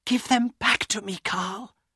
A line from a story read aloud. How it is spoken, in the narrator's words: Elena whispered